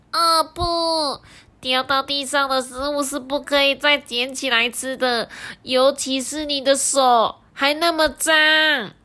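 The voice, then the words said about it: Whispered little bug character voice. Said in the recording (Chinese): “小虫子小声的说”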